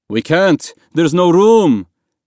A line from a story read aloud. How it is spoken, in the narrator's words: a man inside the dinghy yelled